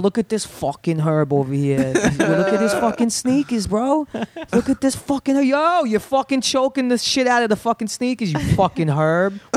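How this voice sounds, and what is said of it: Heavy exaggerated New York accent. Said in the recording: “Was your accent that heavy when you moved out here? ... I now have a fake New York accent ... when you were doing that impression”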